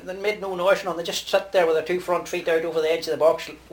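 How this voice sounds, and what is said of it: Rural Irish accent, Donegal tinge. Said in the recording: “It's a grand accent. Very rural. ... Got a tinge of Donegal in there, too.”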